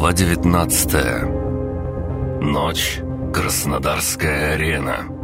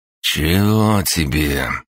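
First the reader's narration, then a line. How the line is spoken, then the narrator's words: Lazy question. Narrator (Russian): лениво спросил Крыс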